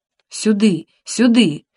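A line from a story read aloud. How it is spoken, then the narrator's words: Hoarse whisper calling. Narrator (Russian): звал меня старшина хриплым шепотом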